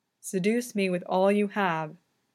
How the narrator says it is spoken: Victor says, his voice low and measured in Yuri's ear

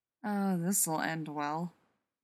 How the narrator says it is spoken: John muttered to Rodney

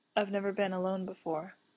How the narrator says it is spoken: Castiel murmurs

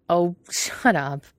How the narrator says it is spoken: Quentin said, laughing

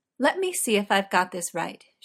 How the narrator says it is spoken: she said

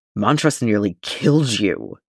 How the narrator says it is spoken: says, a sharp-edged snarl

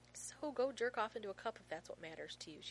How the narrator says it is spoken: she says evenly

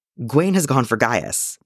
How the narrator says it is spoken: Merlin said

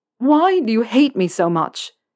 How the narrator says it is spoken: Harry asks, his voice rising to a shout

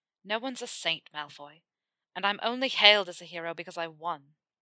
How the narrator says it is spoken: he said bitterly, putting as much disdain into that last word as he could

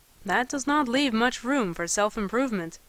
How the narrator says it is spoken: he observed dryly

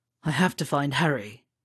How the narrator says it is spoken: Sirius muttered into the side of his neck

